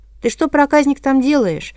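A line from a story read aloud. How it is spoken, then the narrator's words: Metropolitan's shout. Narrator (Russian): крикнул митрополит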